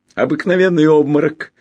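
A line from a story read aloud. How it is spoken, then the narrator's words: Cheerful announcement. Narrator (Russian): радостно сообщил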